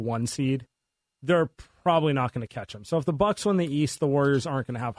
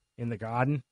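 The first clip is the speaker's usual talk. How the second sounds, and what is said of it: Poor put-on Boston accent. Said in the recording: “best Boston accent ... It's not good.”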